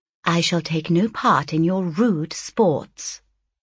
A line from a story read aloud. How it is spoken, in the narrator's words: replied the lady, coldly